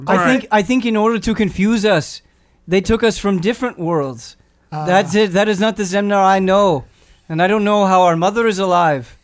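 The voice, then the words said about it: Wandering put-on character accent. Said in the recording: “I don't know where this accent is going.”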